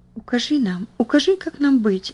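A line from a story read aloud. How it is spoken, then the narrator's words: Whispering. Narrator (Russian): зашептала Бетси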